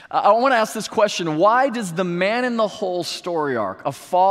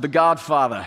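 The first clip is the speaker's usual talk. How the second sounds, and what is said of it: Guttural, poor Godfather-style impression. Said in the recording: “I want to hear a guttural response for this one ... It was a terrible accent, but it's the best I can do.”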